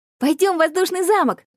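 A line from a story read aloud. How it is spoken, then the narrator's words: Shouted. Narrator (Russian): крикнул я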